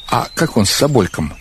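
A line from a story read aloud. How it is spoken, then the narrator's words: Plain. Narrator (Russian): спросил я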